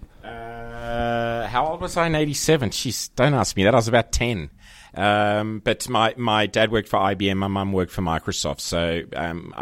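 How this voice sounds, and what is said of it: Australian accent. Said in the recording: “Guessing by your accent, Australian born and raised”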